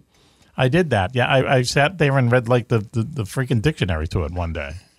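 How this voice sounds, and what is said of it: Boston accent. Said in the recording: “my accent, my Boston accent”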